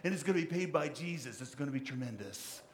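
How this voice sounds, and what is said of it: Imitates another person's voice. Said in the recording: “my best Donald Trump impression.”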